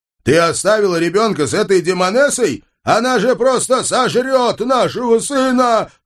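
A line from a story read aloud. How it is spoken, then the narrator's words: Full-voiced roar. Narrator (Russian): В полный голос взревел я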